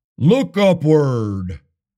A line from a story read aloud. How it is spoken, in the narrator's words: the booming voice cried